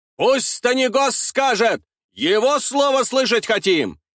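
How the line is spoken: Crowd shouting. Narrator (Russian): кричали из толпы

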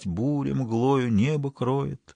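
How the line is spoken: Very soft singing. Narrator (Russian): Он тихо-тихо стал напевать

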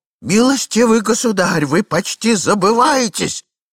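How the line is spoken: Desperate shout. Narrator (Russian): закричал господин в енотах в отчаянии

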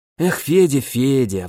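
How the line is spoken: Sighing. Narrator (Russian): вздохнул друг

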